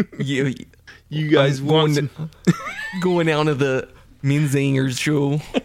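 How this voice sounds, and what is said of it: Failed Philly accent, sounds Canadian. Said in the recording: “I can't do a Philly accent ... I was gonna say that was almost right Canadian”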